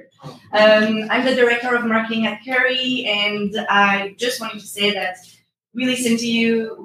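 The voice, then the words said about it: French accent. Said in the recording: “The accent you hear is French”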